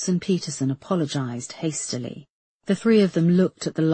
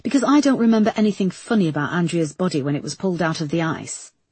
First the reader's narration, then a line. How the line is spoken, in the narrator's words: snapped Erica